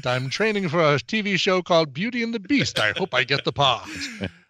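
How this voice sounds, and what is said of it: Put-on British accent. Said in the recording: “Sorry about my British accent.”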